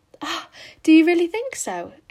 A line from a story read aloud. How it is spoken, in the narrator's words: exclaimed Anne, flushing sensitively with delight